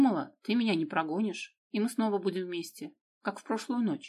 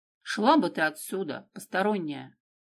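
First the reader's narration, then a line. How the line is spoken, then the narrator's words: Quiet menacing angry bass. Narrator (Russian): сердитый следователь тихим страшным басом говорит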